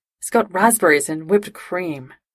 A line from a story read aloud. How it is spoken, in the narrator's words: Jim sighed